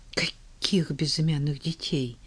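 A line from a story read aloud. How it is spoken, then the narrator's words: Muttering under breath. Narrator (Russian): Иудей бормоча под нос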